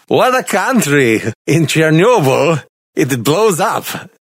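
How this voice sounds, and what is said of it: Exaggerated fake Russian accent. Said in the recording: “I was just doing an exaggerated, fake, poor Russian accent... playing into one of these Russian stereotypes”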